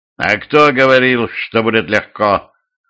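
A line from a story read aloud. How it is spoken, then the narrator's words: Growled, Russian man. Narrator (Russian): рыкнул русский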